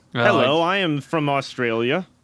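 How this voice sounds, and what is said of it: Put-on Australian accent. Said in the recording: “My guy is Australian. ... it's my accent.”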